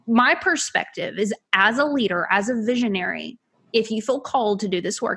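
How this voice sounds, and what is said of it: Southern US accent. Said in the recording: “my family's Southern. Okay. I don't know if you picked up the accent or not. We're country folk.”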